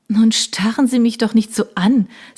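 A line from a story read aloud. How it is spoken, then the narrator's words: Embarrassed, laughing. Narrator (German): sagte sie und lachte verlegen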